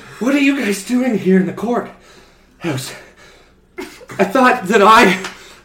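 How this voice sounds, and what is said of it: Out of breath, panting speech. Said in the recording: “I'm still out of breath.”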